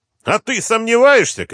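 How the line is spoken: Shout. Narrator (Russian): крикнул Артемьев

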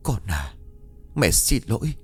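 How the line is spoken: Soft mumble. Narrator (Vietnamese): Miệng của con khẽ lẩm bẩm

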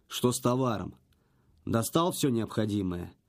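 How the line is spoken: Abrupt, businesslike. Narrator (Russian): Резко перешел он от шуток к делу

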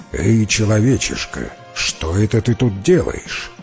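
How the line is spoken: Menacing question. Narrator (Russian): див и грозно спрашивает

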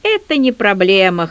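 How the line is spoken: Snorting. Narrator (Russian): хмыкнул Хабецкий

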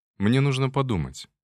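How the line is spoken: Calm answer. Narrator (Russian): ответил спокойным тоном

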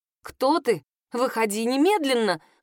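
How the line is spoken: Indignant shout. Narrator (Russian): возмущенно закричала я

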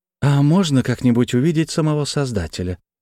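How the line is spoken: Soft question. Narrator (Russian): мягко спросила Алина

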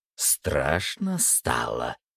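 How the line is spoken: Frightening voice. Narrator (Russian): сказала она пугающим голосом

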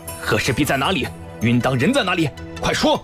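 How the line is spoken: Angry shouted demand. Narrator (Chinese): 朝阳闻言更加愤怒，喝问道

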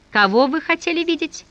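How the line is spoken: Asking after laughter. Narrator (Russian): Отсмеявшись, писарь спросил

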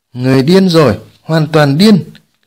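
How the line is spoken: Loud laughter. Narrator (Vietnamese): Thiên Ma Vương cất tiếng cười lớn

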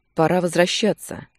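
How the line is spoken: Deep calming sigh. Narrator (Russian): Нечаев вздохнул глубоко, пытаясь успокоиться

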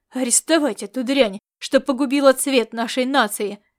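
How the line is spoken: Loud bark. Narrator (Russian): рявкнул он во всеуслышание

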